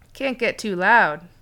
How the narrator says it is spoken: he said with a laugh

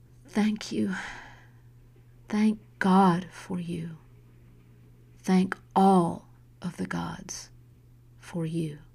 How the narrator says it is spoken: whispered

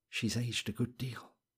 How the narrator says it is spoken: he said softly, and broke off

